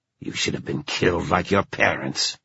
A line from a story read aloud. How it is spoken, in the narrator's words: hissed one of the other riders, Delon